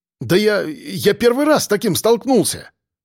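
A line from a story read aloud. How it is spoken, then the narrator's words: Babbling. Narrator (Russian): лепетал сержантик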